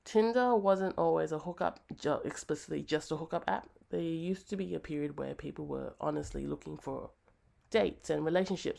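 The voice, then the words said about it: Sleepy, tired-sounding voice. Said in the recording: “apologize for my voice. This is my nighttime voice. This is always when I sound very sleepy or tired, even though I'm not, or I sound a little bit sick”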